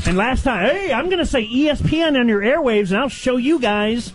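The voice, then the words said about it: Angry yelling. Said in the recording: “Why are you yelling at me?”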